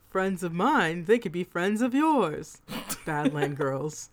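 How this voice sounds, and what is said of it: Old-timey radio announcer voice. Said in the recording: “I said it in... like old-timey radio voice.”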